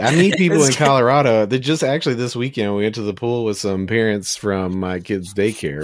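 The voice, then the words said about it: Southern Memphis accent. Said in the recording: “always just sounded Deep South... it's just like a Southern accent to me... Just Memphis, right. like Southern guy. That's how they talk”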